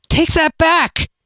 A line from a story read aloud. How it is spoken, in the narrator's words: cried